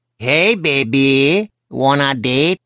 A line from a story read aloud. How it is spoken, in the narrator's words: in a Mexican accent that made him sound like Speedy Gonzales